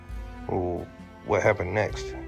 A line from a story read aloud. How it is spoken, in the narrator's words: Amanda asked softly